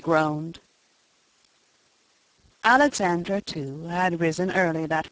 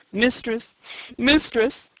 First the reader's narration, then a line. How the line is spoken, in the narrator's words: he sobbed